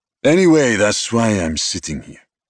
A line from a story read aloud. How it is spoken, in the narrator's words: Vincent said gruffly